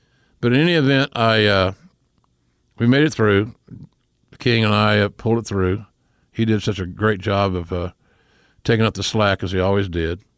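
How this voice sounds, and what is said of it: Southern US accent. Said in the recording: “the chubby guy with the southern accent”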